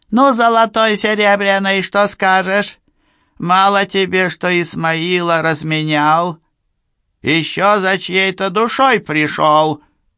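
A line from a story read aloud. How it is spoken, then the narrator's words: Dwarf, squeaky, choking with rage. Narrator (Russian): рыжий пузатый карлик-черевичка … задыхаясь от злобы, пропищал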